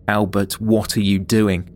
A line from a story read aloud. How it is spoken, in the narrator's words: Journalist Gary Willie shouted